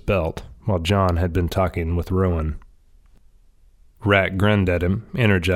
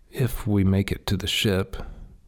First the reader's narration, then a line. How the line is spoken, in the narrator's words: he added under his breath